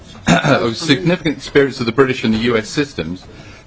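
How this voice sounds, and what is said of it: Speaks with an accent. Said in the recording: “I hope that accounts for the accent.”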